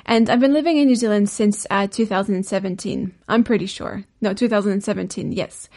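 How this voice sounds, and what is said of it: French accent in English. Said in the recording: “I'm originally French, hence the sometimes really weird accent”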